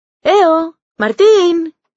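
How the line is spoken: Boys shouting. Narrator (Spanish): gritan los chicos

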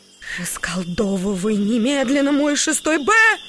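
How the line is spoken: Shouted. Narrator (Russian): закричала Алина Викторовна

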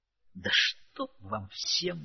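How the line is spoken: Groaning. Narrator (Russian): застонал от этой во всех отношениях умилительной сцены Дмитрий

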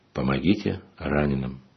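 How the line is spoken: Quiet. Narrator (Russian): тихо произнес

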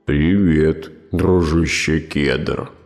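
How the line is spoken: Sleepy growl, bear. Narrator (Russian): рыкнул медведь сонным голосом

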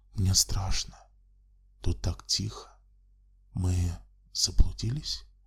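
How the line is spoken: Quiet whisper. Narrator (Russian): она тихо прошептала

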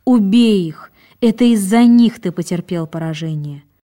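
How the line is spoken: Distressed exclamation. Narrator (Russian): Она не могла вынести вида бегущих мусульман и воскликнула

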